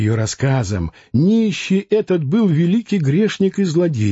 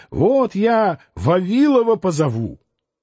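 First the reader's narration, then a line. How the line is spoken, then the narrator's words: Nanny shouting scoldingly. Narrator (Russian): нянька Евгения, кричала, когда дети слишком шалили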